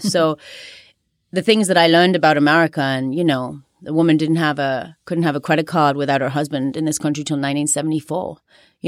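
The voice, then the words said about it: Unusual accent. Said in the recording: “you do have, if I may say so, even an unusual accent”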